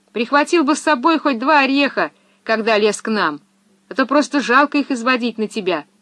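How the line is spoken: Shouting. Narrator (Russian): крикнула ему Пеппи

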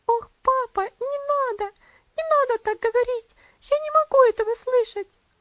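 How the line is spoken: Sobbing exclamation. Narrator (Russian): воскликнула она с рыданиями

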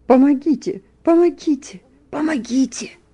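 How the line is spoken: Half-choked shout. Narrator (Russian): Кто-то полупридушенным голосом крикнул

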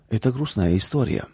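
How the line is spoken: Grandmother sighing. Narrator (Russian): вздохнула бабушка

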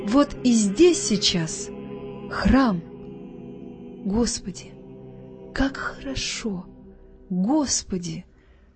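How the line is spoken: Overwhelmed emotional whisper. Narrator (Russian): шептала Вера, не зная, что еще говорить от нахлынувшего чувства

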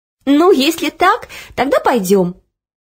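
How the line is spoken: Laughing. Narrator (Russian): рассмеялась Оля

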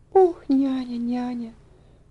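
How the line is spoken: Quiet muttering. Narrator (Russian): бормотала она тихонько

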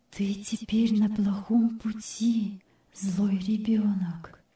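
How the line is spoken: Quiet inner voice. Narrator (Russian): внутренний голос тихонько сказал ей

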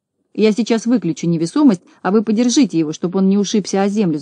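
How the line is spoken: Shouting from afar. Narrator (Russian): закричал Знайка издали

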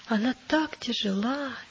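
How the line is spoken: Sad child's voice. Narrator (Russian): печально проговорил маленький христианин

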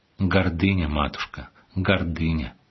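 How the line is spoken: Sad reproach. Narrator (Russian): владыка с печальной укоризной сказал ей

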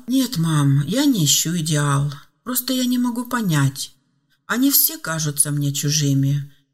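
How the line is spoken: Sad sighing young man. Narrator (Russian): грустно вздыхал молодой мужчина

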